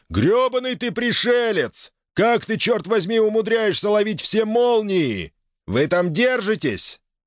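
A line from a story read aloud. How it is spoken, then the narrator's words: Shouting over wind. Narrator (Russian): Фокс перекрикнул свист ветра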